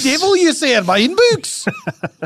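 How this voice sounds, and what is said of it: Put-on Welsh-Scottish accent. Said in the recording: “That's Wales. ... Walesland. ... It's like a mix. It's a mixture between Welsh and Scottish.”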